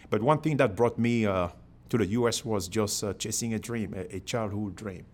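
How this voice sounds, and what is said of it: Cameroonian-accented English. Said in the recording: “I have the accent ... I'm from Cameroon in Africa originally”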